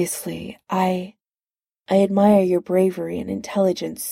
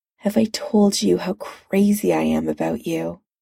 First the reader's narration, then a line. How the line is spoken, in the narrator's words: He said quietly